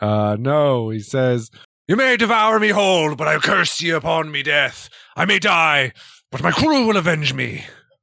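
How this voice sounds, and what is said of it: Dramatic character voice of a captain. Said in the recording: “do a better Cassius impression”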